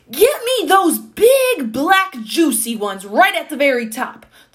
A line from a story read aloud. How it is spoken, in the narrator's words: the old man was shouting